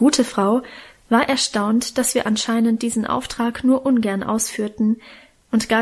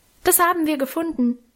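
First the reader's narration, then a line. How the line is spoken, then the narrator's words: Called out. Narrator (German): ich rief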